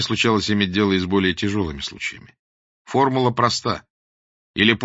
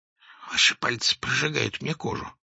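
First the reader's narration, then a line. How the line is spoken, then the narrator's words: Whisper. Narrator (Russian): прошептал Клочков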